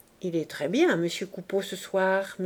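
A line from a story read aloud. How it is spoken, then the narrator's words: Whispering in someone's ear. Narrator (French): murmura Clémence à l'oreille de Boche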